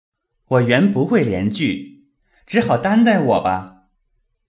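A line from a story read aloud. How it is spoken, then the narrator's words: Smiling. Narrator (Chinese): 宝玉笑道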